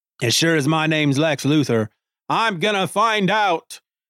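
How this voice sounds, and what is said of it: Deliberately bad put-on accent. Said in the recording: “in my horrible accent”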